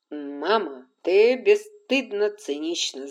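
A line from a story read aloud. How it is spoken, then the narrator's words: Laughing. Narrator (Russian): засмеялся Ред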